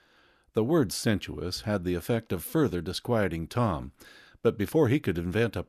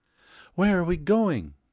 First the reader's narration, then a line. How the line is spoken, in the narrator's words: she cried